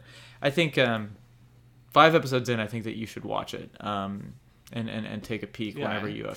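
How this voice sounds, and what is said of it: Usual voice. Nothing is said of it.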